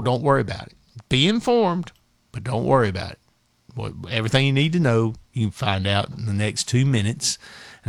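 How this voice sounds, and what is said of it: Southern American accent. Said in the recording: “he doesn't have a southern accent like I do”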